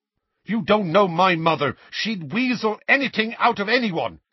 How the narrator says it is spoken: Seamus snapped at him

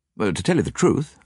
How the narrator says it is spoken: replied

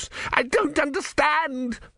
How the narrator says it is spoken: screamed Vorbis

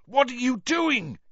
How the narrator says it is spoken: yelled Cedric's voice

